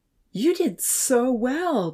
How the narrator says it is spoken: Damien exclaimed with pride

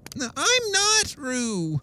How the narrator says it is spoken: said Piglet loudly

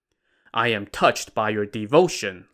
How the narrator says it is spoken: Lu Da said

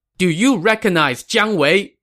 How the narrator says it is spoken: the young man shouted

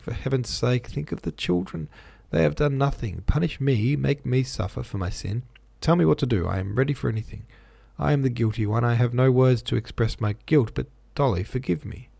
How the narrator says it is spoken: he said, now actually sobbing

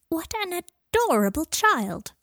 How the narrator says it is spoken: cried an old witch

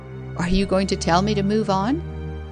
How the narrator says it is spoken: said, I believe she laughed

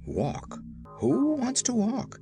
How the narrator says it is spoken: exclaimed the man

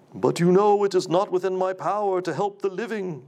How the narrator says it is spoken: said with a sigh

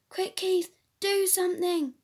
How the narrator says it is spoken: they cried

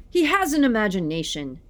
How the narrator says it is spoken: yelled Father

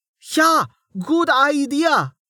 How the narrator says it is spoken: the young man yelled

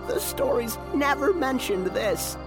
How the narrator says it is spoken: said a thrilled Opus, laughing

